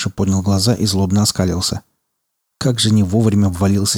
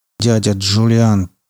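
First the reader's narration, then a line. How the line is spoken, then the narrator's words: Through gritted teeth. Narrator (Russian): процедил Тиен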